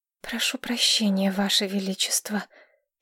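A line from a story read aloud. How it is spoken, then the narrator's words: Quiet but firm. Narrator (Russian): тихо, но твердо произнесла Маргарет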